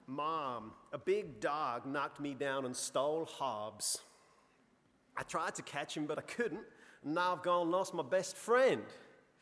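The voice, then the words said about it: Put-on Kansas accent. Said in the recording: “an Episcopalian priest from Kansas ... So I'm going to do it in that accent.”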